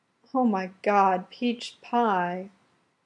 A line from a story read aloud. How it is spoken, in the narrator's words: Laura moans rapturously